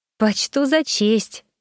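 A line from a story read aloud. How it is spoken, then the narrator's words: Hesitant, forced out. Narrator (Russian): после минутного замешательства выдавила я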